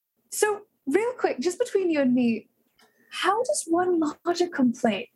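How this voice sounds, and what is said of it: Silly-sounding character voice. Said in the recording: “I know I sound a little silly. That's just how my voice sounds sometimes.”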